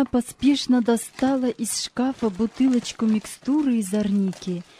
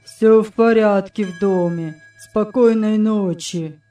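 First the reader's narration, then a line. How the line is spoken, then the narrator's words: Monotone. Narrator (Russian): сказал он монотонным голосом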